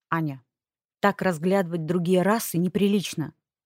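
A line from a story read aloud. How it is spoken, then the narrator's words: Stern man. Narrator (Russian): строго сказал мужчина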